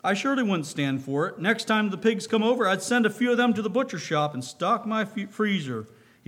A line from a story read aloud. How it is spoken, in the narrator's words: finished with a hearty laugh